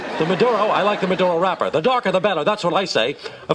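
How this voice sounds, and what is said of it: Blustery George Steinbrenner impression. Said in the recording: “as the voice of George Steinbrenner. It's funny, as we listen to that, it's not quite your speaking voice ... doing an impression ... he's a big, blustery guy. He kind of talks like that.”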